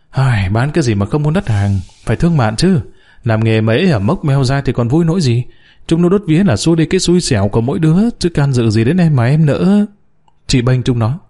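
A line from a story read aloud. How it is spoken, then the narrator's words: Sighing. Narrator (Vietnamese): Chủ quán thở dài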